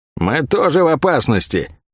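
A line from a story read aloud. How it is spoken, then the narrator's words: Irritated grumble. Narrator (Russian): С некоторым раздражением из-за этой остановки проворчала Лавиане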